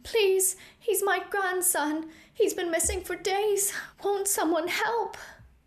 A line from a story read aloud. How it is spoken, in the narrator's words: an elderly elven woman sobbing into a raggedy shawl, desperately